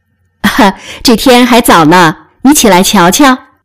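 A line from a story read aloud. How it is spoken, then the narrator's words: Laughing. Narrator (Chinese): 宝玉笑道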